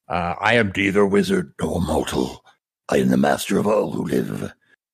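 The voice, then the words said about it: Batman impression voice. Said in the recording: “that's my Batman voice”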